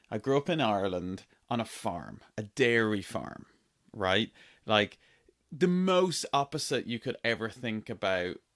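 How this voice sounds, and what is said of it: Irish accent. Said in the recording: “My accent is Irish.”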